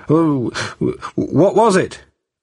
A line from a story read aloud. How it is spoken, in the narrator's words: stammered